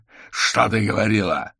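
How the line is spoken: Growled. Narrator (Russian): рыкнул

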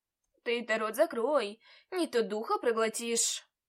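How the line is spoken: Nearby grumbling. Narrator (Russian): проворчал кто-то неподалеку

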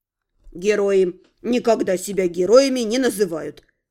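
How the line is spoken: Confident, knowing tone. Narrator (Russian): уверенным тоном знатока заключил Барри

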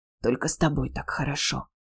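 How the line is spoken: Hoarse whisper in ear. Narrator (Russian): хрипло на ухо

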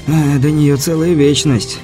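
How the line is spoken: Sighing. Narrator (Russian): Беляев вздохнул

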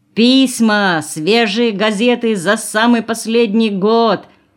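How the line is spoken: Strained shout, young man. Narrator (Russian): кричал надсадно молодой парень

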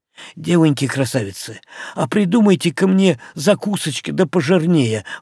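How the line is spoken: Pleading. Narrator (Russian): взмолился он

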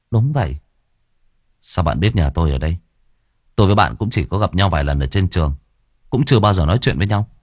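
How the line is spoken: Gentle smiling. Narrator (Vietnamese): Hương mỉm cười nhẹ nhàng

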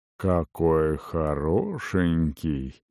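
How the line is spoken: Lazy drawl. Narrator (Russian): вальяжно протянул черноволосый мужчина

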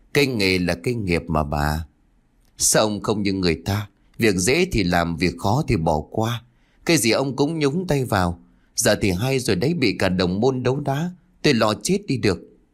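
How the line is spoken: Sighing. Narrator (Vietnamese): Thầy Long liền thở dài

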